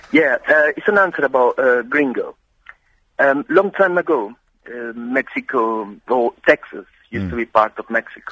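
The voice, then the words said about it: Speaks with an accent. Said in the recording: “And my accent.”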